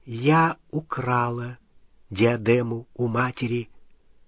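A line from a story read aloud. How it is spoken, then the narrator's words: Quiet. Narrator (Russian): тихо сказала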